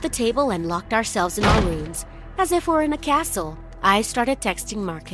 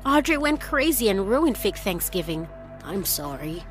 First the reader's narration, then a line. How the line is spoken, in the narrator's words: replied